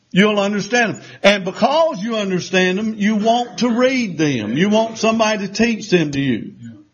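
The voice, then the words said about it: Southern drawl. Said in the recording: “I know that's my southern drawl ... Sometimes he needs an interpreter ... to understand what I'm saying.”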